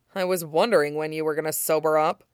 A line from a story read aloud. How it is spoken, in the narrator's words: he muttered